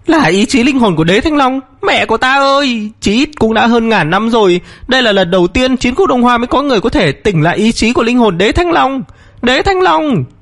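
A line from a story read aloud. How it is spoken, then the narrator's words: Panicked cry. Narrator (Vietnamese): Vân Diễm Hồ thất thanh la lên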